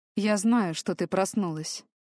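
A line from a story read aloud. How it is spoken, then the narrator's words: Quiet. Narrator (Russian): тихо сказал он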